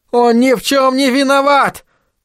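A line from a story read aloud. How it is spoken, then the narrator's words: Desperate shouting. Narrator (Russian): кричал Айзек, не в силах терпеть вопли Лемюэля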